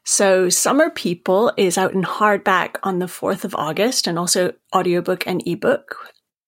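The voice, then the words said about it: Maine accent. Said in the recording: “I'm from Maine, as you can tell from my accent”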